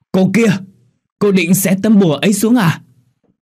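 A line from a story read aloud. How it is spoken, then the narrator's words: Old person's urgent shout. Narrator (Vietnamese): Một cụ già vội thét lên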